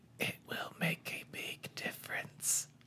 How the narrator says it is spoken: I whisper

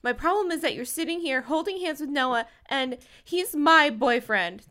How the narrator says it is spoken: Tracy blurted out

